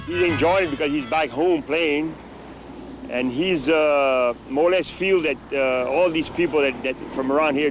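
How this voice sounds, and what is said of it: Cajun accent. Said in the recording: “his Cajun accent ... He sounds like the dude from The Waterboy”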